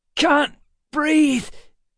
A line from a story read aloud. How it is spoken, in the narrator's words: Emma croaked